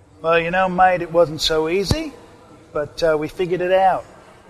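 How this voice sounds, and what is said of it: Put-on Australian accent. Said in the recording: “not so bad there off the cuff ... the Australian accent ... my accent. But I did the best I could.”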